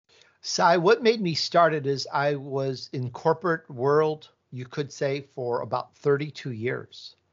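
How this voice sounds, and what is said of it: American Midwest accent. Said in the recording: “I grew up in Chicago, so I have this Midwest accent”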